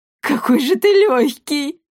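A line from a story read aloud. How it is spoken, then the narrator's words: Laughing joyfully. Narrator (Russian): радостно захохотала она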